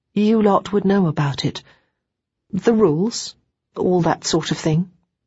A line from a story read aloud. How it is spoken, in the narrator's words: Chrissy went on, her voice wobbling slightly